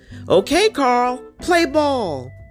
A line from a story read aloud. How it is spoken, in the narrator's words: Suddenly, someone yelled